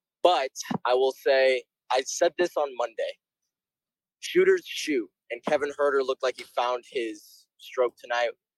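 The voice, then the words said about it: Raspy, strained voice. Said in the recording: “my voice is a little raspy ... I lost my voice”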